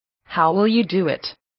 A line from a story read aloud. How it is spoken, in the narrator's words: asked Satan